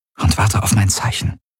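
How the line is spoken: Murmur. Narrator (German): murmelte sie

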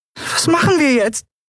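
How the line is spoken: High squeak. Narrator (German): piepste sie

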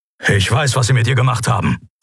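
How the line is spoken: Grumbling. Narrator (German): brummte Kero

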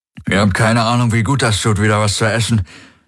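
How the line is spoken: Happy mumbling, mouth full. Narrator (German): nuschelte er mit vollem Mund, glücklich wie ein Baby

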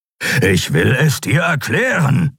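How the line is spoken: Growling. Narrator (German): knurrte Kero

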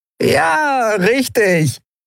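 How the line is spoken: Dirty laugh. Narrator (German): wieder das wunderbar schmutzige Lachen

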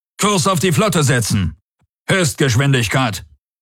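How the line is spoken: Commander calling out. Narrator (German): rief der Feldherr

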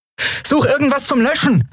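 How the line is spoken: Calling out. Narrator (German): rief Endriel

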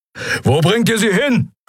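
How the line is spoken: Roaring. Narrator (German): brüllte Keru

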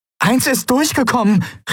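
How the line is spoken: Called out. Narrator (German): rief sie

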